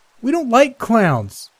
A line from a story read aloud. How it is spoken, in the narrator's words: one of the girls attending the party shouted